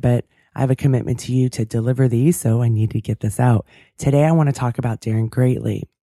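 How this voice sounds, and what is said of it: Cracky, slightly sick voice. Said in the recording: “My voice is a little cracky today because I'm a little under the weather”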